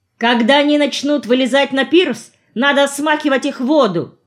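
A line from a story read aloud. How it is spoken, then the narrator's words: Shouted. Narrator (Russian): крикнул я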